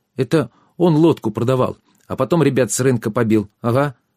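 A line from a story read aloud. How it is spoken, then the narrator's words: Quick child's voice. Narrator (Russian): быстро сказал малыш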